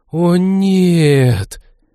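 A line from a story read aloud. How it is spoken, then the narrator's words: Group exhale in unison. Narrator (Russian): дружно выдохнула команда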